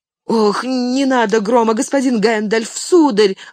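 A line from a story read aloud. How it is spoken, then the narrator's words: Pleading. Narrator (Russian): взмолился Сэм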